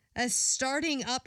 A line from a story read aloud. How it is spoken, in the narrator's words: she cried